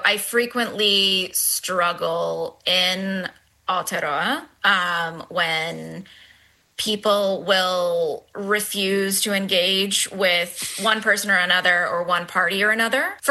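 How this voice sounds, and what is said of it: American accent. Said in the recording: “as everyone can tell from the accent, I grew up in the US.”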